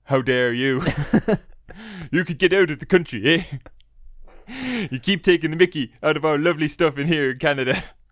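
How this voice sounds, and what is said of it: Put-on Canadian accent, not convincing. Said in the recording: “my accent, which doesn't seem to be Canadian very much anymore”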